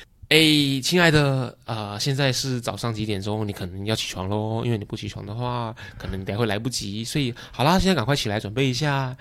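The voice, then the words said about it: Sweet, gentle wake-up voice. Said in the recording (Chinese): “是一个好像就是很 sweet 的妈妈或者女朋友、男朋友的声音说。”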